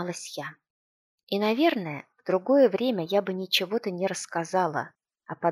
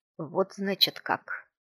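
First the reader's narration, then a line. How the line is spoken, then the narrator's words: Quiet, necromancer. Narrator (Russian): тихо сказал некромант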